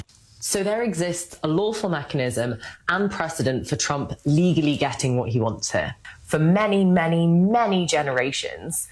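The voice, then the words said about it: Posh London English accent. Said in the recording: “That's full British, like a full London sort of English accent. ... London, posh ... The posh. ... the posh-y ... of London.”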